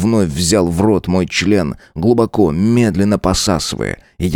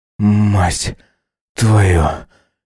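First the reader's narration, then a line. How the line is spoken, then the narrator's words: Strained, forced out. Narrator (Russian): Выдавил я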